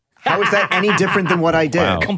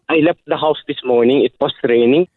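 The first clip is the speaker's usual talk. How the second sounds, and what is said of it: Put-on Filipino accent, Jamaican-Irish sounding. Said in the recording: “Filipino accent as half Jamaican, half Irish”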